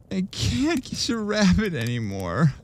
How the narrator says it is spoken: I sobbed

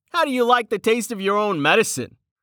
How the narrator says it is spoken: He snorted out a laugh

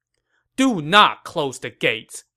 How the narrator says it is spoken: Zhao Yun shouted

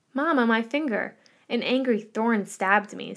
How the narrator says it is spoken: said Esperanza

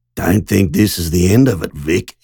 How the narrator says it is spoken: he hissed

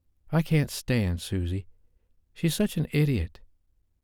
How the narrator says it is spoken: She finally blurted out

